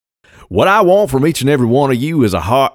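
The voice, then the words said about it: Southern accent impression of actor. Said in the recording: “using your southern voice ... I'll just do it as southern guy playing. This is southern guy one as Tommy Lee Jones”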